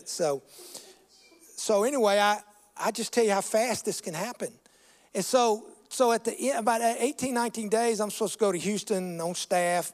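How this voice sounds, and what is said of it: Mississippi Southern accent. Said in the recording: “Louisiana? Are you a Cajun? No. That's my Mississippi accent.”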